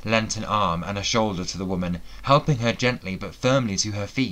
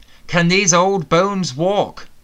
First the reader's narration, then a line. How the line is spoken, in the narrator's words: Morgan shouted